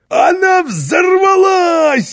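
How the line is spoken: Delighted shout. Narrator (Russian): в восторге закричал Карлсон, словно ему удалось проделать с паровой машиной самый интересный фокус

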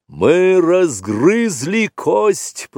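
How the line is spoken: Booming voice. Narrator (Russian): прогремел Пхао, сын Пхаоны

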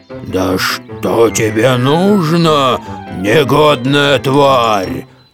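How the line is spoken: Growling. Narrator (Russian): зарычал

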